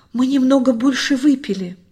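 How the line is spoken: Groan. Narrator (Russian): простонал Луис

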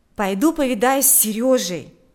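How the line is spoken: Exclaiming. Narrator (Russian): воскликнул Миша

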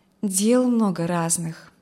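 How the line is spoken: Calm reply. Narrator (Russian): спокойно ответила Алевтина

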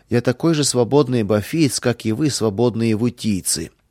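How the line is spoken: Indignant exclamation. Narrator (Russian): Гвиф не стерпел такого оскорбления и воскликнул

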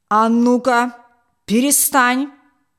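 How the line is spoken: Menacing shout. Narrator (Russian): грозно крикнул он

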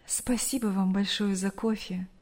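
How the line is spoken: Mother's sighing words. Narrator (Russian): вздохнув, сказала мать Брюса

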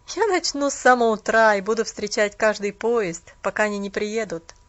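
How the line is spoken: Laughing with slight bitterness. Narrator (Russian): рассмеялся молодой человек с легкой горечью

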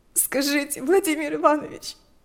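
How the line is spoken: Shaking with sobs. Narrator (Russian): вздрагивала от рыданий Лика

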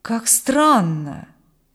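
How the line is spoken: Excited exclamation. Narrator (Russian): воскликнул маркиз взволнованно

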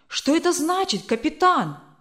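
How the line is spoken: Exclaiming. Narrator (Russian): воскликнул Брюстер

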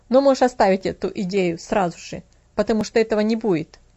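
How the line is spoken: Plain. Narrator (Russian): ответил фермер

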